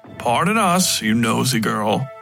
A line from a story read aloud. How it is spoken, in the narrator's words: the doctor added, chuckling in that uncomfortable way he developed